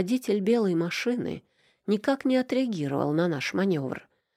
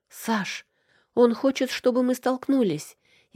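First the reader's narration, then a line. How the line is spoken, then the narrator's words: Frightened cry. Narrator (Russian): испуганно вскрикнула я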